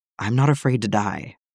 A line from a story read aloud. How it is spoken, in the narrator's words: Cody whispers